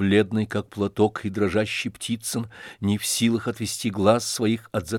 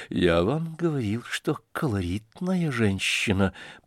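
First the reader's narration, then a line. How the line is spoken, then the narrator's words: Muttered, shaken. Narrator (Russian): пробормотал тоже отчасти побледневший Афанасий Иванович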